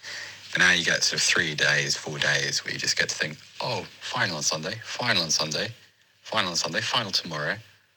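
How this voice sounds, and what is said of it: Tired-sounding voice. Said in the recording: “he sounds tired”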